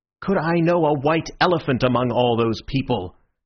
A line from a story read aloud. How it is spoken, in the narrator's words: answered Syme somewhat irritably